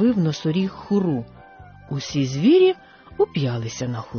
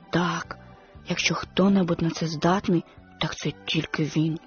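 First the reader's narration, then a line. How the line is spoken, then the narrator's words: Whisper. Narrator (Ukrainian): шепнув Твіга слону Нембо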